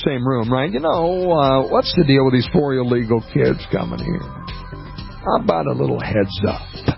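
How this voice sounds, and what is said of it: Impression of Jack Dalrymple. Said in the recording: “my best Jack Dalrymple impression.”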